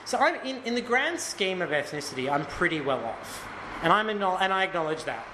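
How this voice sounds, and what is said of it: Mainstream Australian accent. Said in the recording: “my accent is pretty middle Australia”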